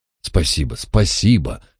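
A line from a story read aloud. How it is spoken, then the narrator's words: Embarrassed mutter. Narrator (Russian): смущенно пробормотал Джайлз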